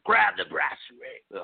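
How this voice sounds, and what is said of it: Poorly done impression. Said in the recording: “that was a horrible impression.”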